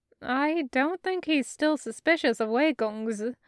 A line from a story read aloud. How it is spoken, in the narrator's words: Granny laughed